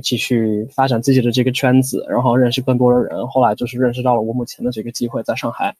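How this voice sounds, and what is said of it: Near-native Mandarin tones. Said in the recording (Chinese): “我觉得你的口音声调就已经近乎是母语者了”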